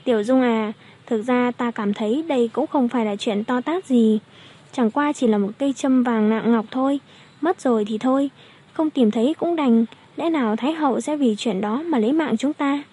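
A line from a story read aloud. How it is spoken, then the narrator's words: Strange smiling tone. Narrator (Vietnamese): Thẩm Tú Nhi mỉm cười kỳ quái nói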